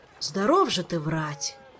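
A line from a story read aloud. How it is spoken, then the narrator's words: Sigh. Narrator (Russian): вздохнул Фортуната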